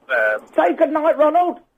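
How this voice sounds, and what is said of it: Donald Duck voice impression. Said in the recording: “Can you do a Donald Duck impression? ... Everyone can do a Donald Duck, can't they?”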